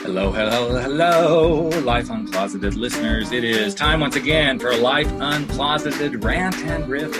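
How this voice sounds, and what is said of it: Exaggerated radio announcer voice. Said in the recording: “talking in this stupid radio voice”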